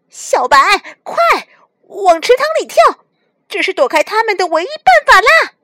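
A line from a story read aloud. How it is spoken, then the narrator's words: Desperate shout. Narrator (Chinese): 两只猫被追急了，小黑不顾一切地 喊着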